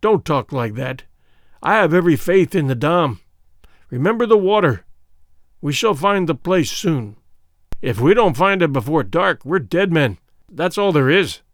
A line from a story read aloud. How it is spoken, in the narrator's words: groaned Sir Henry